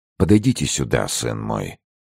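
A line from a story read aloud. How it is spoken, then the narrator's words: Tender count. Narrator (Russian): проговорил граф, ласково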